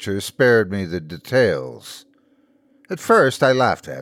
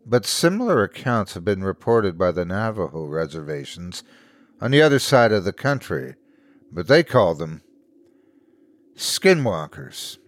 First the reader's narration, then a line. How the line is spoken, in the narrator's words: I sighed